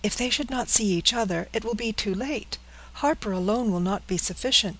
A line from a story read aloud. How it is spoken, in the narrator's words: cried Frances, in returning terror